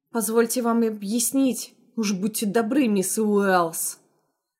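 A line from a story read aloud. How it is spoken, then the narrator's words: Growling. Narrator (Russian): Рыкнул Роберт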